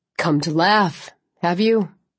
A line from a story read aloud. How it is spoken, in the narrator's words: Clancy asked, his voice hoarse